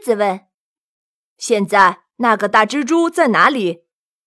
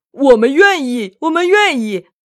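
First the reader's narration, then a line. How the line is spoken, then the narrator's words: Powerful collective roar. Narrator (Chinese): 所有的野兽们发出一阵有力的吼声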